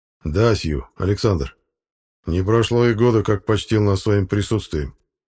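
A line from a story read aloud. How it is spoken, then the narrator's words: Plain. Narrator (Russian): ответил он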